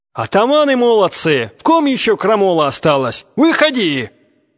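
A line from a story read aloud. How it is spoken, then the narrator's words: Barked shout from crowd. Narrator (Russian): Гаркнул голос из толпы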